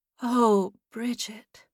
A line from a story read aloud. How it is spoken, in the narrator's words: Margaret breathed